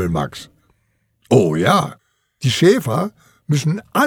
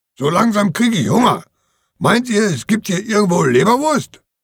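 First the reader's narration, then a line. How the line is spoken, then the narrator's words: Barking. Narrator (German): Charlie bellt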